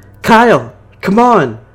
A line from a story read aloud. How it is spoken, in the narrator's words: I screamed